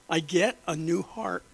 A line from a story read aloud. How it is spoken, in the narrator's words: she replied in a choked voice